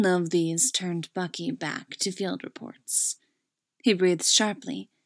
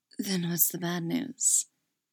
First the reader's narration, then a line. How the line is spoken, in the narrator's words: breathed